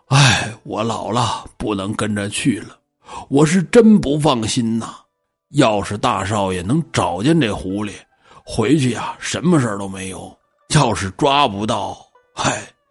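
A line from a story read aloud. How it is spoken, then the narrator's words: Sighing, worried. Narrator (Chinese): 葛峰说完，叹了口气儿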